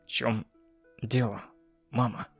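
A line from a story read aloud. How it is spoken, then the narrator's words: Soft, gentle. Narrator (Russian): мягко сказал я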